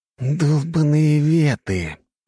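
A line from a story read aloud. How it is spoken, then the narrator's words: Through gritted teeth. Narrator (Russian): процедил девятнадцатый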